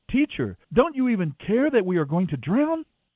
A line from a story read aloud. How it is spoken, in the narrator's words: Frantically, shouting